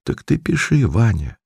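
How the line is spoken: Quiet women's voices. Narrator (Russian): то одна, то другая женщина ... тихо говорила

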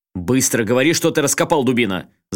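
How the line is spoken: Angry growl. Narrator (Russian): зарычал на него Асакава

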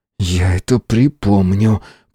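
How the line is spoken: Hiss. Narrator (Russian): прошипел Фауст

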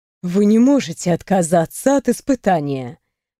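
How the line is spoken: Soft reminder. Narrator (Russian): мягко напомнила мастер Зеблд

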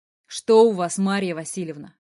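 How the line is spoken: Somewhat sharp. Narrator (Russian): Немного резко отвечаю

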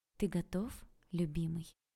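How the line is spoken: Tender question. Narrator (Russian): ласково спросила я

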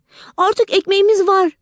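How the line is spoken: Shouting together. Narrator (Turkish): diye bağırıştılar

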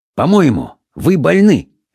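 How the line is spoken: Sharp. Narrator (Russian): резко проговорил доктор Симон

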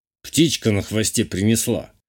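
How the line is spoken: Wry snort. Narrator (Russian): хмыкнул Журбер

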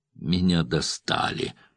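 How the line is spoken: Moan. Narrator (Russian): простонал

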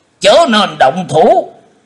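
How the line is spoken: Shout. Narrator (Vietnamese): Khô Lâu đạo trưởng cũng đã quát lên

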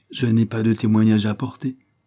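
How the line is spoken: Calmer tone. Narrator (French): dit-elle d'un ton plus calme

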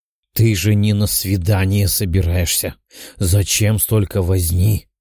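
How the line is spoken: Grumbling. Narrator (Russian): ворчала Даша, что уже третий час помогала подруге с выбором наряда

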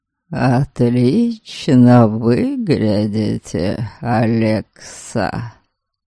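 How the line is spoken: Purring. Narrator (Russian): Мурлыкнул Норберг

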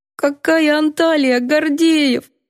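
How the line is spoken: Mousy squeak. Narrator (Russian): пропищала мышью

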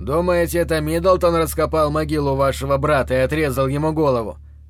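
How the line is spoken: Plain. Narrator (Russian): спросил он

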